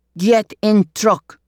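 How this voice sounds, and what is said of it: Put-on Russian accent. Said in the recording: “I'd never met a Russian, but I'd heard the accent before”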